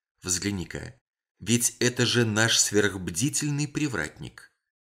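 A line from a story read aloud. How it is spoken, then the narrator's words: Whispered. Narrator (Russian): Мейсон шепотом сказал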